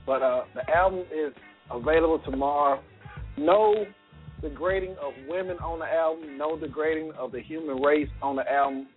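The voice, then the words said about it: Strained, hoarse voice. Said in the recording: “I'm losing my voice over here. I'm so excited.”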